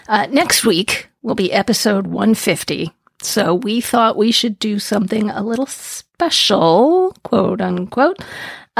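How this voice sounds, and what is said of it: Scratchy, slightly hoarse voice. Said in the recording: “I still have it. I don't have it too bad, but my voice is a little bit scratchy”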